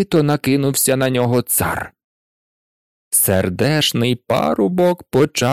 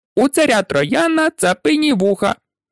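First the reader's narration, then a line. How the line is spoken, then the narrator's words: Squeaky pipe in human voice. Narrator (Ukrainian): мила сопілка пропищала людським голосом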